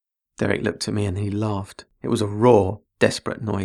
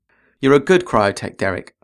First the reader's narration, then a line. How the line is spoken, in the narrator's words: said